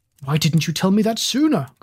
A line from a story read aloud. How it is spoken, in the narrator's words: cried Mr